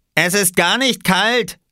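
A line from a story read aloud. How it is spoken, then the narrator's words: Called out. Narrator (German): rief er Oskar zu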